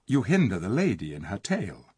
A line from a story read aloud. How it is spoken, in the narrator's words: said Tyrion softly